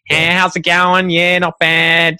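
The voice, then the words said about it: Broad nasal rural Australian accent. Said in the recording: “a broader accent. It's more nasally. So, they'll be like speaking up here in the nose a bit more”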